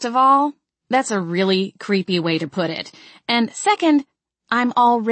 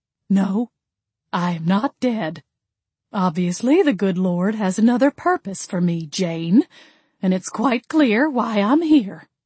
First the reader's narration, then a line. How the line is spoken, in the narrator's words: she said, sighing happily